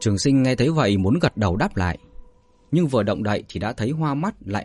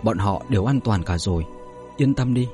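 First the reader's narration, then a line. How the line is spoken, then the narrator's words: Soft reassurance. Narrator (Vietnamese): Vũ Điển Chân Cung khẽ nói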